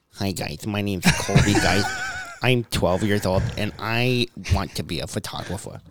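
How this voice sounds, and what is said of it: Imitates another person's voice. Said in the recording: “I can sound like Colby in 8 seconds here ... Let him do his impression.”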